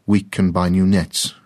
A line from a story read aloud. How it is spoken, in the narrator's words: his father said